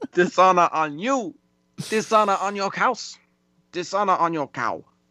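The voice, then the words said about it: Exaggerated put-on accent. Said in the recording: “offensive accent”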